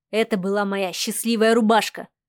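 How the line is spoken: Snorting. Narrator (Russian): хмыкнул незнакомец

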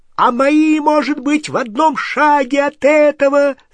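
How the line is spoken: Shrieking. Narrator (Russian): завизжал Рон

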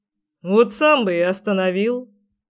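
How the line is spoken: Father's grunt. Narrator (Russian): хмыкнул отец

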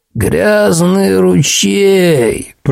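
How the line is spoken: Drawling old man. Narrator (Russian): протянул дед

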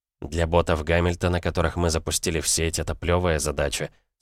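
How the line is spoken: Calm reply. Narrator (Russian): спокойно ответила нейросеть

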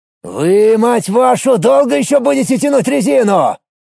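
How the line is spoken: Loud booming shout. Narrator (Russian): Зычным голосом прокричал Олег Палыч

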